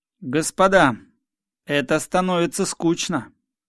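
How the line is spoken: Loud. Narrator (Russian): сказал я им громко

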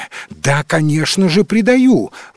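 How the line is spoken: Exclaimed, losing patience. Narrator (Russian): воскликнул Эдмонд, теряя, наконец, терпение

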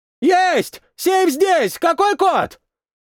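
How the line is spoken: Shout. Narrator (Russian): прокричал боец

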